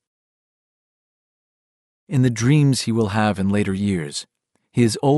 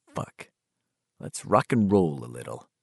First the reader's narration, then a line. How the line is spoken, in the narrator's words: Bill said softly